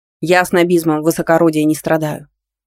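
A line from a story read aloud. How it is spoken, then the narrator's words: Calm snort. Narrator (Russian): хмыкнул Дарсон, моментально успокоившись, как только понял, что Надя даже и не думала издеваться над ним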